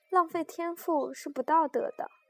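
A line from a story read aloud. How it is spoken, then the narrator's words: Persistent, grinning. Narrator (Chinese): 他仍不死心，笑嘻嘻道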